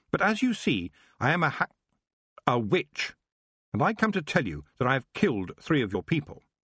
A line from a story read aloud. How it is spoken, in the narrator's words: she said firmly